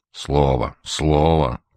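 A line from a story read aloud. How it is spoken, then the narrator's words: Grumbling. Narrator (Russian): проворчал Козырев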